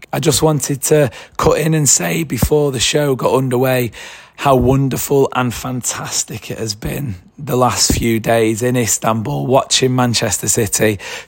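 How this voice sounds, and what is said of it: Hoarse, worn-out voice. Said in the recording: “as you can probably tell, my voice is a little bit worse for wear, not quite up for a full podcast recording”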